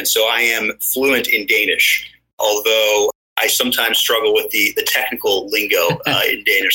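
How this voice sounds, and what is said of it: Fairly American accent. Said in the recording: “hence the quite American accent”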